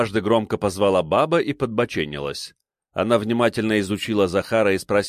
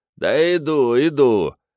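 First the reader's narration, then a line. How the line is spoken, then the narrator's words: Distant grumbling. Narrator (Russian): ворчливо донеслось с кухни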